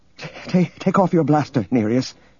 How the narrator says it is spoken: she said shakily

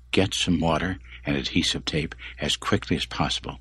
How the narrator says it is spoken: Sylvia said in a low, intense voice

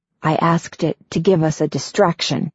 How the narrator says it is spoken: Nine whispers

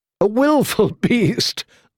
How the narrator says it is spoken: laughed a handsome young man

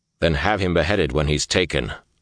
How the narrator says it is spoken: Lan said harshly

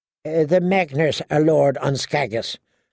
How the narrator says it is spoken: Noy said

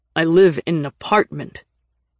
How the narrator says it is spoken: Nick said sharply

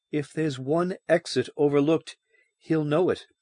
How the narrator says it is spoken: Anita pointed out shakily

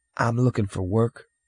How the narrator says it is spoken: Cole murmured

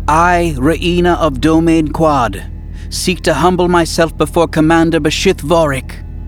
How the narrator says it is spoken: she said loudly and clearly in the Yuuzhan Vong language

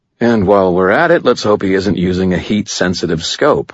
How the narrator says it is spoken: I said dryly

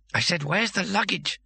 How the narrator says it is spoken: hissed Bethan behind Rincewind's back

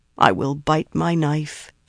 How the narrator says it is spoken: said sadly

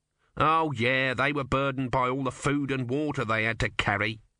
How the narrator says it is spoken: said Om bitterly

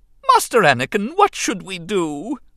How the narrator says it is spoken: C-3PO wailed in dismay

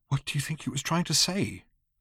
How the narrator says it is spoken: asked Arthur in a small voice

